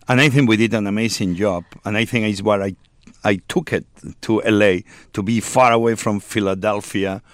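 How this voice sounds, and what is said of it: Spanish accent in English. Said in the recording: “accent, Spaniard, English tongue”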